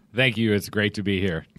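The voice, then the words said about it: Put-on announcer radio voice. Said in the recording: “There's his radio voice. ... I've been watching too much Anchorman.”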